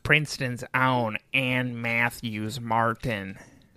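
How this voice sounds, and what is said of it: Imitates another person's voice. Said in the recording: “my Jack impression so that I can somehow sound just like you”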